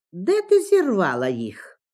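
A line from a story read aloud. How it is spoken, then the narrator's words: Plain. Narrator (Ukrainian): запитали вони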